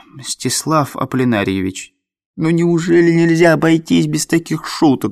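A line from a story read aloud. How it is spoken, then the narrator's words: Pleading. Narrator (Russian): взмолился Андрей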